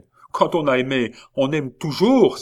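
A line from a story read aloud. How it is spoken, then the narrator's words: Exclaim. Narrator (French): s'écria-t-il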